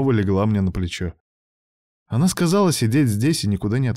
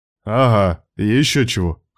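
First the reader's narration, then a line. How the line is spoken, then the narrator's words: Scoffing. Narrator (Russian): хмыкнул я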